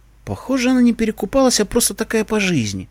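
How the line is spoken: Sighing. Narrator (Russian): вздохнул я

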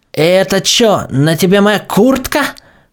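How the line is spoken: Stern exclamation. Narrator (Russian): воскликнула Эпплджек, сурово прищурившись

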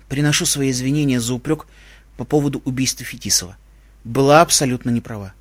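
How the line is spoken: Solemn. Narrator (Russian): торжественно сказала

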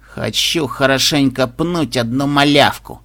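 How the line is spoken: Through gritted teeth. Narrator (Russian): процедила Пегаска

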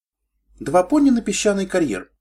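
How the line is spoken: Proud exclamation. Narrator (Russian): гордо воскликнула Кросс

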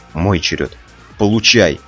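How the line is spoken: Shouted. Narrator (Russian): крикнул я

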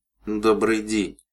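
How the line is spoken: Through gritted teeth. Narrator (Russian): процедила серебристая пони

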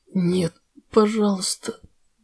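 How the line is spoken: Frightened moan, lips unmoving. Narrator (Russian): Не шевеля губами, простонала пони, чувствуя, как чужие клыки касаются горла

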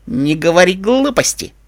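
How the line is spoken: Snort. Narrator (Russian): фыркнула Пегаска

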